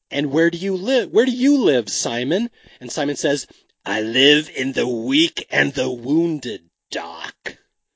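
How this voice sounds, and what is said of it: Session 9 character voice. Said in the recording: “do the voice”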